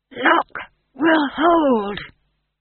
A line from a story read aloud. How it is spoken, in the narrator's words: he whispered, through teeth fixed in a grimace